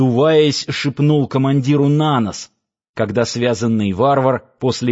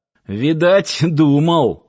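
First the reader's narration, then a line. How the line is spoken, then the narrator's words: Snort. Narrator (Russian): хмыкнул Киркин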